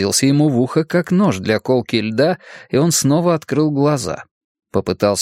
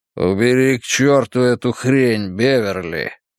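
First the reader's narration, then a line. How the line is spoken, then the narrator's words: Growling male voice. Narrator (Russian): прорычал он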